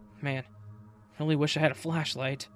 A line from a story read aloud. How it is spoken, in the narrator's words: Marcus said under his breath